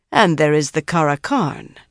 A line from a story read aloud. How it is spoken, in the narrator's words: Tion said calmly